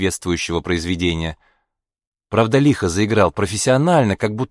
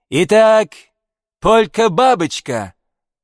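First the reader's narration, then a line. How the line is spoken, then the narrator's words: Loud showman's announcement. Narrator (Russian): объявил громко, как конферансье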